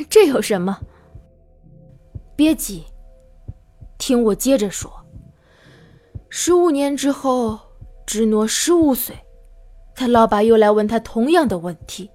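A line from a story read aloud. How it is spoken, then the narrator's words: Chuckling. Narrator (Chinese): 我呵呵一笑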